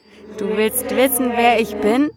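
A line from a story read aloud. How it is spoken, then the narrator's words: Laughing. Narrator (German): sagte es lachend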